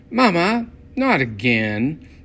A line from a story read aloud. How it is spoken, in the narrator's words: Brenda whined